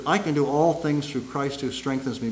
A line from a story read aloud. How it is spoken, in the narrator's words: Laura Lala Wilkinson whispered